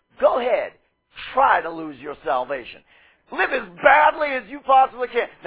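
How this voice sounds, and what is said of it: Sarcastic delivery. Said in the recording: “I'll say this sarcastically only ... Now I say that sarcastically”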